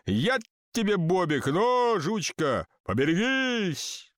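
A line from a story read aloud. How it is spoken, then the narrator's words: Uncertain group shout. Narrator (Russian): Колоколамцы, не зная, кого послал Бог, на всякий случай крикнули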